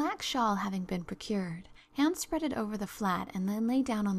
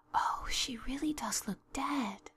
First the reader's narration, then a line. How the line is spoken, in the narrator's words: whispered Ruby Gillis nervously